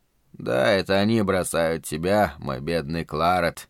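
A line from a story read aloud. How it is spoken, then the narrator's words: Mutter. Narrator (Russian): пробормотал Шелли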